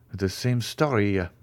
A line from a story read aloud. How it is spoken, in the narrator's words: muttered the jeweler